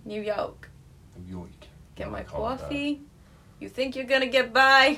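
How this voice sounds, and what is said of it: Put-on New York accent. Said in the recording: “I don't think I could do a New Yorker ... I sound like, but I've been Robert De Niro ... Sounds perfect”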